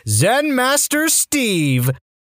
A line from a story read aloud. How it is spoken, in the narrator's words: triumphantly said